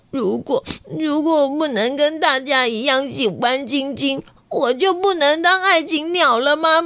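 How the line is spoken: Crying question. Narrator (Chinese): 瑞希哭着问妈妈说

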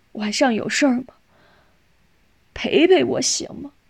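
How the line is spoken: Tearful pleading. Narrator (Chinese): 佩南哭了一会儿，哀求似的

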